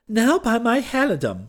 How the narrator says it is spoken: shrieked his majesty with blazing eyes

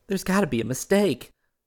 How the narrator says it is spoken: she sobbed

